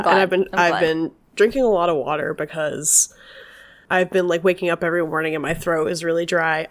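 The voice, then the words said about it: Crackly, slightly hoarse voice. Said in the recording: “my voice always sounds crackly, but sorry if it sounds a little hoarse”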